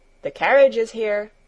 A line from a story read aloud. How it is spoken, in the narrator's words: someone called out